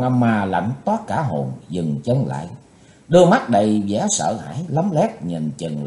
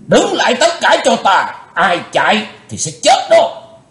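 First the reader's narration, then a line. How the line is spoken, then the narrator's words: Loud shout. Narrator (Vietnamese): Lão cục tài quát lớn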